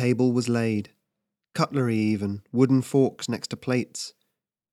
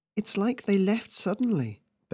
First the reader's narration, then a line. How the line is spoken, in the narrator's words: Beth murmured